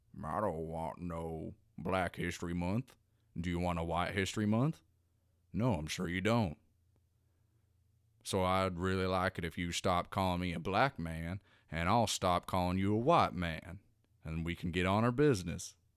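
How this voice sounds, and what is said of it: Imitates another person's voice. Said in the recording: “I've been working on my Morgan Freeman impression.”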